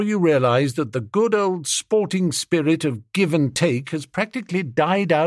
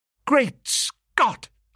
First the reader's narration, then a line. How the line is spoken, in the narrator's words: I exclaimed